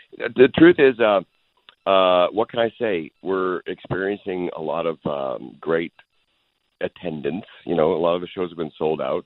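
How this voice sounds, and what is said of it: Deep, sultry hoarse voice. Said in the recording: “I have a little bit of an upper respiratory infection today ... I've got my sex line of deep voice happening”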